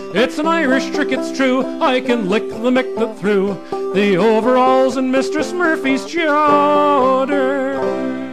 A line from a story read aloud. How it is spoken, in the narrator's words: he shouted all the louder